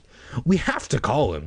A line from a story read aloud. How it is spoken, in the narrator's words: I said eagerly